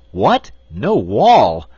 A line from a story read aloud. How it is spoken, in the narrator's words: exclaimed the wizard